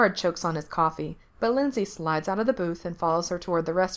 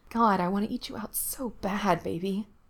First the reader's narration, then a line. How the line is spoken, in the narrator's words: she mutters